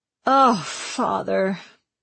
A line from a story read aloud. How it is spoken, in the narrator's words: sighed